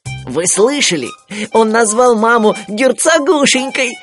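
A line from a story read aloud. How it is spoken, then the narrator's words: Giggling. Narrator (Russian): хихикнул Тулуз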